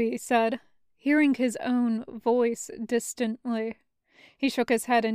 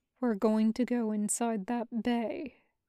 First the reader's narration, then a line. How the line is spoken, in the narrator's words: he said quietly